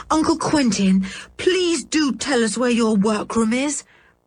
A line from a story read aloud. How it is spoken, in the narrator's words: begged Dick, feeling that he could not wait a single moment more to solve the mystery